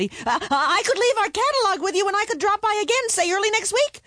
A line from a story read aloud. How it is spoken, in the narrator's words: added quickly